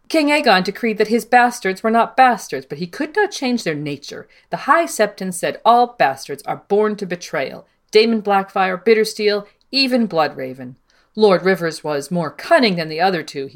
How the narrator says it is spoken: he said

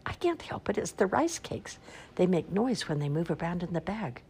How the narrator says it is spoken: Eric whispered

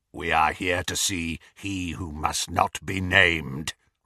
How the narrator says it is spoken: rasped Greyback

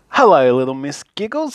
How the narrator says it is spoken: laughed

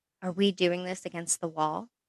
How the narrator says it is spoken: Her heart pounded in her chest, and she whispered against his mouth

